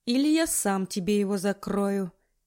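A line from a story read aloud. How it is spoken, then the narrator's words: Calm casual tone. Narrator (Russian): Говорит он спокойным тоном, словно мы обсуждаем погоду за окном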